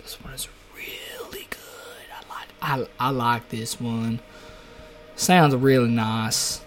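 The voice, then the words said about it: Put-on Southern US accent. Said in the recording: “That's my southern accent. I have a southern accent.”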